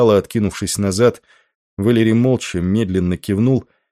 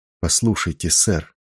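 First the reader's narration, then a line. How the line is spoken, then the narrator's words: Quiet but insistent plea. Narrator (Russian): тихо, но настойчиво попросил он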